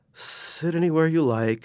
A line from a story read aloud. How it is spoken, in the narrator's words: she said sleepily